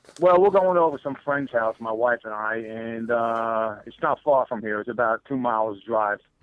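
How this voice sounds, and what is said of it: Brooklyn New York accent. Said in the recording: “I'm from Brooklyn, New York ... my accent has a funny ring to it, usually, so everybody knows I'm from New York”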